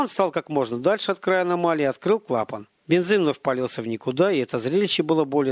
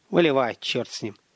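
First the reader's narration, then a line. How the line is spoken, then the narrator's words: Sigh. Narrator (Russian): вздохнул Столяров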